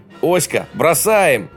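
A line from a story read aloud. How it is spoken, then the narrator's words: Yelling. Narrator (Russian): орал Скальберг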